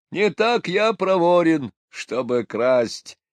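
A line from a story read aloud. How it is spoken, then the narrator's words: Mocking old man's reply. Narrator (Russian): насмешливо ответил старик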